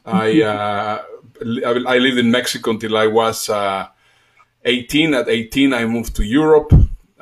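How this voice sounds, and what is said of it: Slight Mexican Spanish accent. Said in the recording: “I am Mexican. Possibly you will hear a little bit in my accent.”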